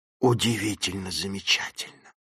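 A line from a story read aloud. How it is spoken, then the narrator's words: Whisper. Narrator (Russian): прошептал он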